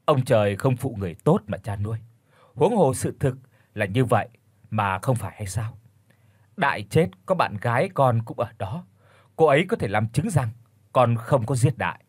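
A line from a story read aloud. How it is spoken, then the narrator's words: Sighing reply. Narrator (Vietnamese): Công thở dài đáp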